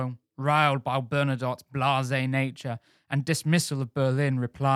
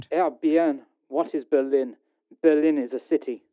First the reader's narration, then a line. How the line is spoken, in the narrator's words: Bernadotte exclaimed